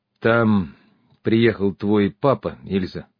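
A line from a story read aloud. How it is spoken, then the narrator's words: Sepulchral tone. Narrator (Russian): за могильным тоном сообщил я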